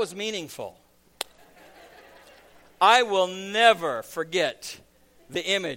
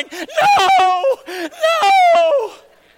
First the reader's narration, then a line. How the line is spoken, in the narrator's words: Kalia burst into tears, hysterically crying